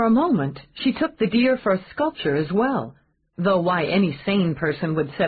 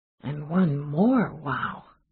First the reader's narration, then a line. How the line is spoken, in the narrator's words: She murmured